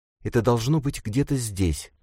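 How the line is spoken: Whispered. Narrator (Russian): прошептала Никс

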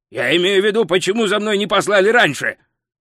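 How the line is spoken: Barking. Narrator (Russian): рявкнул Гальдер

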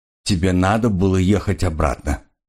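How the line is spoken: Dry. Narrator (Russian): сухо сказал Алк

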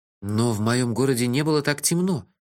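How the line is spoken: Confused objection. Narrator (Russian): растерянно возразил я

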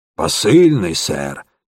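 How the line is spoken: Hoarse. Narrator (Russian): сипло ответил он

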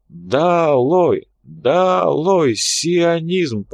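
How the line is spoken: Group moaning chant. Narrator (Russian): продолжали стонать патриоты

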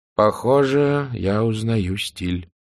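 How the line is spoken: Gloomy remark. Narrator (Russian): мрачно заметил Ньют

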